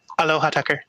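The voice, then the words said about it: Imitates another person's voice. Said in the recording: “You gotta do a Tulsi impersonation. That's the hard one. ... my Tulsi impression”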